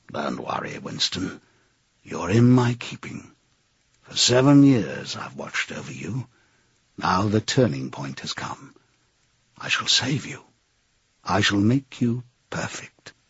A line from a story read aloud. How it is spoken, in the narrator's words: A voice murmured in his ear